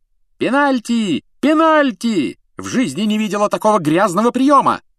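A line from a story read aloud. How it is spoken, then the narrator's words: Woman shouting. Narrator (Russian): закричала мадам Трюк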